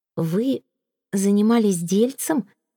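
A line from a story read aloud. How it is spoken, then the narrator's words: Confused repetition. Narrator (Russian): растерянно повторила Флёр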